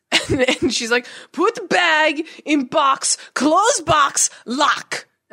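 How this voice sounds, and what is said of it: Put-on Russian accent, broken English. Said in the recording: “she was like Russian maybe ... I'm doing her accent totally wrong. I apologize to all the Russians I'm offending out there.”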